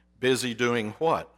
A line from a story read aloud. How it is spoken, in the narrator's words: asked the boss